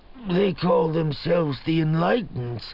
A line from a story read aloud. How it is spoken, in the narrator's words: Kilori murmured